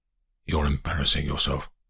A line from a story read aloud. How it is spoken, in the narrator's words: says Sir Bernard sharply, then more quietly